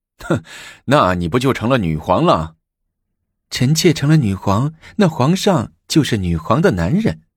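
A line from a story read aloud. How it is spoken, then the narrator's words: Half-joking. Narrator (Chinese): 武则天半开玩笑的说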